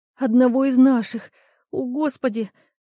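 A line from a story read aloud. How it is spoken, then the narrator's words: Sobbing. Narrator (Russian): Ленка стала всхлипывать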